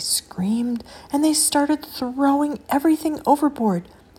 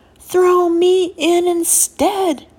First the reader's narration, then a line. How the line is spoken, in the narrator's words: shouted